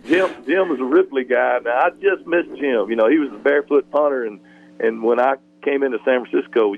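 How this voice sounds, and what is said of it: North Mississippi Southern accent. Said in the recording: “you can hear this accent... this North Mississippi accent”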